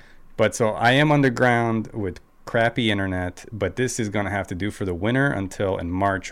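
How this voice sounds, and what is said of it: Hoarse, congested voice. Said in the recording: “I'm coming off of a cold, so that's why my voice is kind of shot. ... I obviously have congestion”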